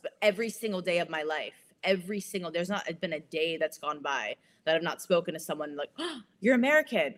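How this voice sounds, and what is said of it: American Valley Girl accent. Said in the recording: “she has a very snooty American accent ... I do have a Valley Girl accent ... really does have, ... I have a snooty American accent”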